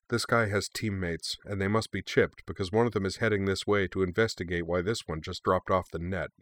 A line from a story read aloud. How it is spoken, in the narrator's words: Keeping her voice low, she said without preamble